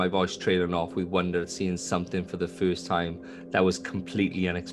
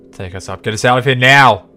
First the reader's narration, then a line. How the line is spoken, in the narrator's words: He shouted